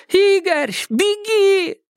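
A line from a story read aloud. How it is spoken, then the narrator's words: Frantic scream. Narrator (Russian): истошно закричала Макс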